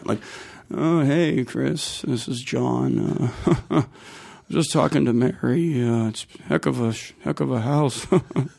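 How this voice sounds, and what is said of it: Impression of his dad. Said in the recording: “I'll do an impression of him. This is like, I can call my siblings and they think it's my dad on the phone.”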